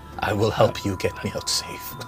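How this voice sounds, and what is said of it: Put-on Vistani accent. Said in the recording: “I just spoke in a Vistani accent”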